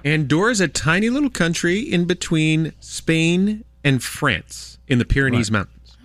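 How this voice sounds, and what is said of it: American accent. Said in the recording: “I'm speaking with an American accent”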